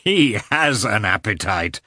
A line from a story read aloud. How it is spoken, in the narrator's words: said Oblonsky, laughing